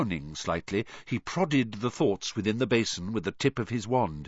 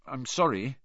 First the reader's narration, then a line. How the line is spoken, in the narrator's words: Harry mumbled